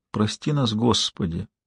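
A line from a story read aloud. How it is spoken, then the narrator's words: Said quietly. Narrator (Russian): тихо сказала Кармела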